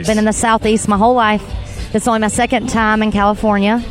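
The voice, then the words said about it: Southern US Georgia accent. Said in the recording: “where's that voice come from? ... I'm from Georgia, so I guess that's where the accent's from.”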